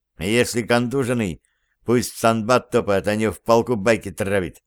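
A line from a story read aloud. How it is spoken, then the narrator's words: Displeased grumble. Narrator (Russian): недовольно буркнул замполит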